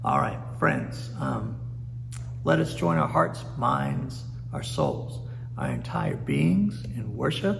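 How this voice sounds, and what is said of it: Hoarse, fading voice. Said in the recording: “Dry mouth, right? ... Losing my voice”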